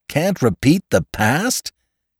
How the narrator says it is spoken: He cried incredulously

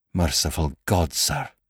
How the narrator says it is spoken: whispered huskily

